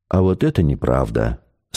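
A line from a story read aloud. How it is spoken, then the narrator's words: Calm. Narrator (Russian): спокойно сказал Максим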